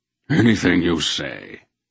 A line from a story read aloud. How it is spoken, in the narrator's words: the Wolfe agreed wearily